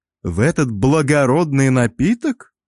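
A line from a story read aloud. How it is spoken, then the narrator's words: Mock-solemn exclamation. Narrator (Russian): Деланно приложив руку к сердцу, воскликнул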